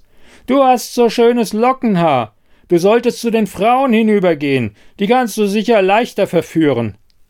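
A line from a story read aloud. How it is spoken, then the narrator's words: Distant call from background. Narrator (German): rief jemand aus dem Hintergrund des Raums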